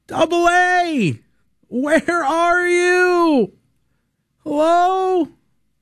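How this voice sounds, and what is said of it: Shouting with mock echo. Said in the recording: “I'm shouting into the void, void, void ... I'm shouting”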